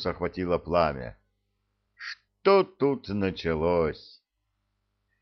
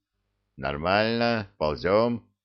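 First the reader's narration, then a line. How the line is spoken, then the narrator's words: Husky voice. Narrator (Russian): хрипловатый голос ответил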